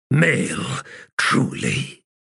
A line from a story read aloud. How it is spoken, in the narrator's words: Emotion growled out in his words